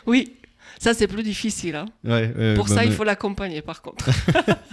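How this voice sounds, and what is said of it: Foreign accent in French. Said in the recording (French): “tu as un accent qui n'est pas tellement ni marseillais ni girondin”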